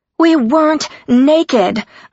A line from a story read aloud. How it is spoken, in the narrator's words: I shouted